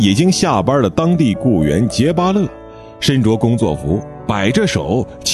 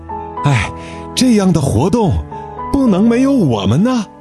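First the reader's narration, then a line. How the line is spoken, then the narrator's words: Heavy panting. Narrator (Chinese): 杰巴勒大口大口地喘着气说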